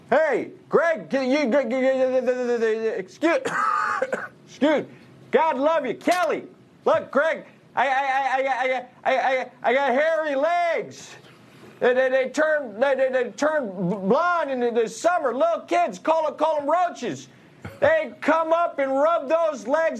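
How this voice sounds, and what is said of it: Joe Biden impression. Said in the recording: “you do a pretty good Biden impression”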